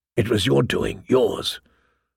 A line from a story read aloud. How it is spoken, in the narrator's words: a voice whispered inside her